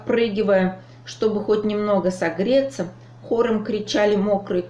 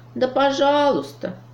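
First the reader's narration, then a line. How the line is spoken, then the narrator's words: Sad sigh. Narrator (Russian): печально вздохнул Дроне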